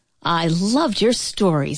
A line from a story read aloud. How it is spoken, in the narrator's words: exclaimed